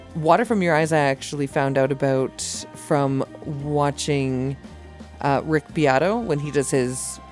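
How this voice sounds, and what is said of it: Strained, fading voice. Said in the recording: “I feel like I'm losing my voice”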